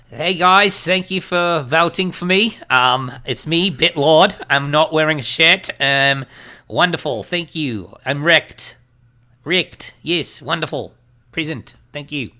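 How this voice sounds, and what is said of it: Put-on Australian accent. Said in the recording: “I'm going to try to do a terrible Australian accent. ... An offensive New Zealand accent.”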